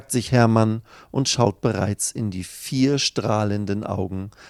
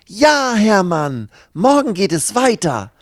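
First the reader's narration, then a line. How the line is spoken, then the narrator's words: Calling out. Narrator (German): ruft Lucy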